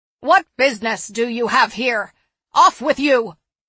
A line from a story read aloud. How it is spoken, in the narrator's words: the woman shouted